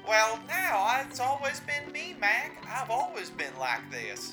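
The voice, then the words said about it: Put-on Wild West accent. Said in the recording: “we're going back in time to the Wild West now ... Now you're putting on accents?”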